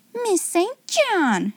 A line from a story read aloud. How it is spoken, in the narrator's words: she exclaimed severely